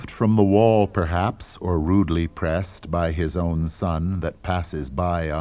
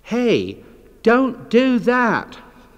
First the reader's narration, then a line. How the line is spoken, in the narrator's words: As a child, Adlai Stevenson yelled